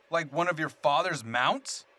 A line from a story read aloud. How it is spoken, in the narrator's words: I bellowed, unable to hang my disgust in my voice